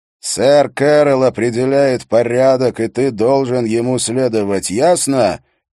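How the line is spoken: Said loudly. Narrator (Russian): он громко произнес

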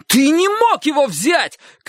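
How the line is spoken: Shouted. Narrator (Russian): крикнул Чик

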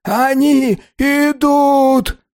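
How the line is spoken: Shouting. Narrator (Russian): кричал Фич

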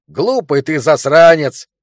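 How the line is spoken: Shouted. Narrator (Russian): крикнул биолог

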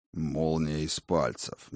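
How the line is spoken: God's grumble. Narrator (Russian): проворчал отец богов

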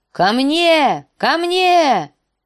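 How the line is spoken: Direwolf shouting. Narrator (Russian): закричал лютоволк

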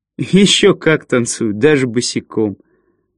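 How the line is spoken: Involuntary laughter. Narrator (Russian): Баг невольно рассмеялся

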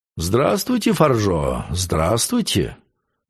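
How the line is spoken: Friendly. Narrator (Russian): сказал он дружелюбным тоном

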